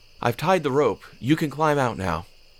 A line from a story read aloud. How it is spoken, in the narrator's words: He called out